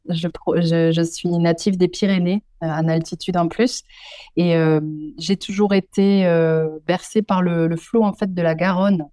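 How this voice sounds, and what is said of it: Southwestern French accent. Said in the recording (French): “on, entend euh, votre accent. Euh, euh, du, sud-ouest, j'imagine”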